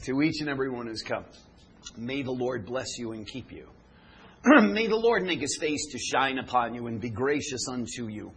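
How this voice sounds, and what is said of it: Hoarse, slightly strained voice. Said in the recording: “my throat is a little off ... as best I can with my hoarse throat”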